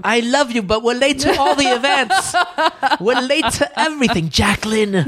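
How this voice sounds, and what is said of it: Affected put-on French accent. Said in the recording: “Why do I have a French accent? ... It's very affected.”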